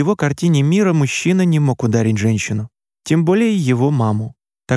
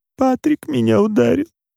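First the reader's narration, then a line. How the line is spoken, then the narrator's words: Sobbing mother. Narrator (Russian): между всхлипами, выговорила мама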